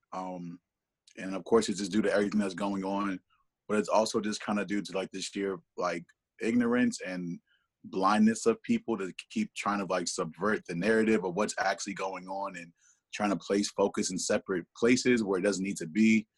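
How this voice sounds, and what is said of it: Slightly hoarse voice. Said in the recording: “If you hear my voice kind of go in or out or whatever, it's a little hoarse”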